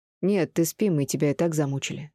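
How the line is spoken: Plain. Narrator (Russian): сказал сын

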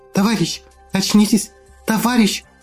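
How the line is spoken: Loud whisper. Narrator (Russian): Громко шептала она

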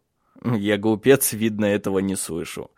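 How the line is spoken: Joyful laughing voice. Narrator (Russian): засмеялся, радость в его голосе

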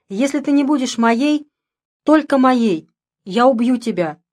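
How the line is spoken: Shouted. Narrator (Russian): крикнул де Марсе

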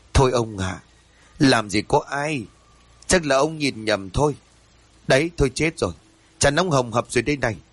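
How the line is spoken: Wife sighing. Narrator (Vietnamese): Vợ của ông thở dài

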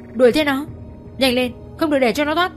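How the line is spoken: Loud shout. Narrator (Vietnamese): Giang quát lớn

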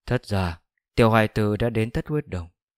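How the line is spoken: Soft speech. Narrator (Vietnamese): khẽ nói

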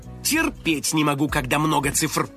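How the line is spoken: Hungry grumbling. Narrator (Russian): проворчал Финик, у которого от голода урчал живот

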